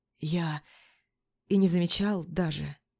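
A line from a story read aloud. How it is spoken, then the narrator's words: Whisper. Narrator (Russian): прошептал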